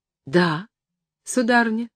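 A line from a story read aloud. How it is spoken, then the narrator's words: Timid reply. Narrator (Russian): робко ответил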